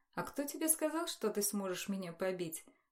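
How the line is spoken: Dry inquiry. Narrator (Russian): поинтересовалась я сухо

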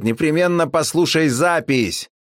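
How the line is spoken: Shouted reply. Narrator (Russian): я крикнул в ответ

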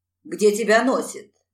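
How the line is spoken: Husband grumbling. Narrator (Russian): заворчал муж

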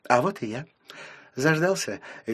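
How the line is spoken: Cheerful question, mother. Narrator (Russian): весело спросила мама

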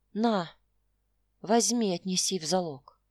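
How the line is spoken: Hollow, muffled. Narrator (Russian): произнес он глухо

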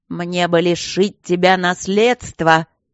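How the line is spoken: Menacing. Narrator (Russian): грозно сказал граф Кембридж

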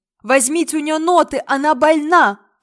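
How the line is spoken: Shout. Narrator (Russian): крикнул наконец он

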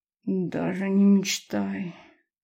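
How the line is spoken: Languid muffled moan. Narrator (Russian): томно простонала в его шею

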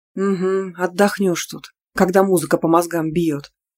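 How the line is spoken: Grumbled. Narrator (Russian): проворчала я

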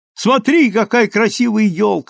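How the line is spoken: Exclaiming. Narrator (Russian): воскликнула Миллисент

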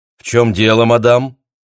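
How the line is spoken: Stern question. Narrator (Russian): строго спросил Чопра

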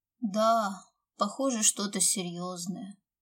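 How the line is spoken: Heavy sigh, strongman. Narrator (Russian): тяжело вздохнул силач

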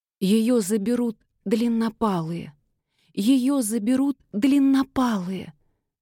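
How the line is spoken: Sobbing. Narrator (Russian): всхлипывала Никси

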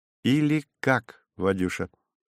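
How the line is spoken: Independent, casual tone. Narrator (Russian): сказала она независимым тоном отпускницы, напрочь забывшей о служебной иерархии

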